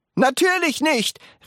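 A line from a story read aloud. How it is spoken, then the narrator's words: Call. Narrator (German): rief Mr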